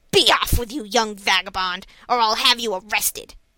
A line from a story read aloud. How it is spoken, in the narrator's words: The salesman exclaimed angrily